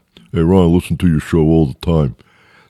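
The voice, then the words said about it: Mocking impersonation of a listener. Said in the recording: “That's not the way he talked. That's my impersonation of him.”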